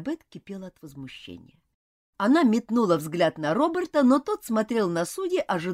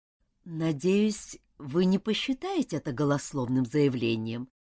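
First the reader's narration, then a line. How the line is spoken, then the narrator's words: Ingratiating insinuating tone. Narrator (Russian): вкрадчиво заговорил Роберт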